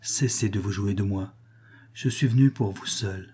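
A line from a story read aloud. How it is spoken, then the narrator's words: Low pleading. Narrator (French): supplia Max à voix basse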